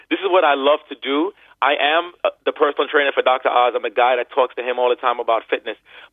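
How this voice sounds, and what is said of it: Energized, passionate voice. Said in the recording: “can tell by my voice, I'm energized and passionate”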